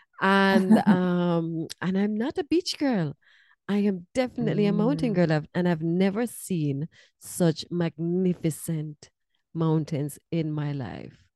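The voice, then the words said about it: Jamaican accent. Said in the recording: “obviously I'm from Jamaica. That's where my accent is from.”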